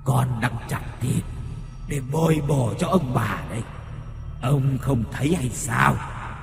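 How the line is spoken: Loud, husky voice. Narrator (Vietnamese): nó ồm ồm nói lớn

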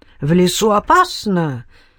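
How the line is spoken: Alarmed exclamation. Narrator (Russian): всполошенно воскликнул отец Руперт

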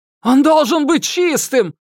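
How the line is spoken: Yelling under strain. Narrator (Russian): заорал не выдержавший давление Касим

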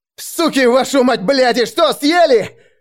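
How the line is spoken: Yelling. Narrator (Russian): орал я

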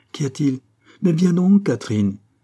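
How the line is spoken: Confident older woman exclaiming. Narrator (French): s'écria la mère, ne doutant point de l'effet qu'allaient produire ses paroles

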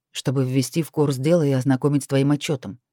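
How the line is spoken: Reluctant. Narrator (Russian): нехотя проговорил он

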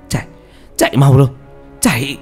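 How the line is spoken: Shouted. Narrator (Vietnamese): Khánh hét lên

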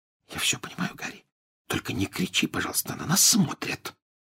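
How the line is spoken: Whisper. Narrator (Russian): прошептала Гермиона

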